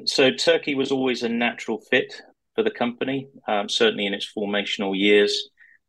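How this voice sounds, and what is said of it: British accent. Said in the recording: “you can tell from my accent that I spent most of my life in the UK”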